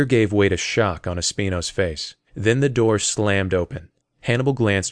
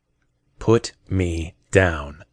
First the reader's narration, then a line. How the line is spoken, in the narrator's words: Espino said slowly